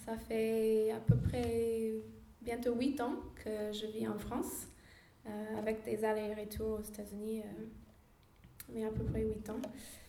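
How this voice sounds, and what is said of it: American accent speaking French. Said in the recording (French): “je suis américaine, vous avez peut-être remarqué l'accent.”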